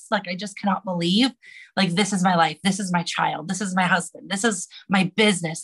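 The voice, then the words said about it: Emotional, choked-up voice. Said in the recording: “I might get emotional ... because I am getting emotional”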